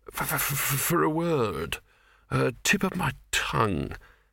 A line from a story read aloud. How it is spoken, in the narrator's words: it said in a dreamy, stunned voice